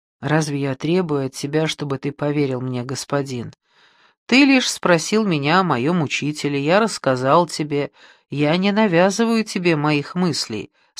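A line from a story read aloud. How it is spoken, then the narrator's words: Calm reply. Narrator (Russian): спокойно ответил Давид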